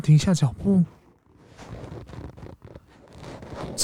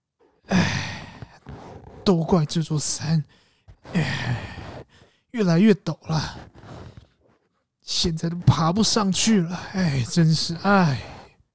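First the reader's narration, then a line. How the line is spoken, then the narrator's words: Breathless old man. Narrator (Chinese): 猴子爷爷气喘吁吁的说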